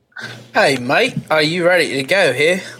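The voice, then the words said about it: Put-on English accent. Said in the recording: “hit me with your best English accent”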